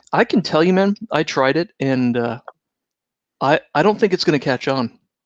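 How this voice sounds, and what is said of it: Slightly hoarse, losing voice. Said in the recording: “losing my voice a little bit due to some extended role-playing sessions”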